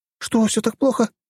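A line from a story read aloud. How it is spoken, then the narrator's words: Frightened exclamation. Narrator (Russian): испуганно воскликнула графиня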